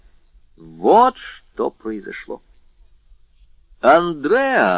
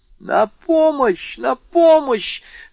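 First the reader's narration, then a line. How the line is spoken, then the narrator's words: Screamed. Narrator (Russian): закричала мадемуазель Дармюльи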